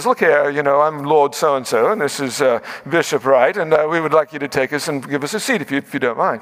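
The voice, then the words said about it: Put-on British accent. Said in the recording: “I had to like that British accent.”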